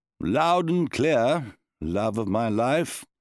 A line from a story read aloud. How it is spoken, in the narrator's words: the Baron replied wearily